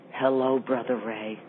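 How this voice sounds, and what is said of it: Sultry, breathy seductive voice. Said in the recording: “in my sexiest voice ... that, in her sexiest voice ... Was a sexy voice, too”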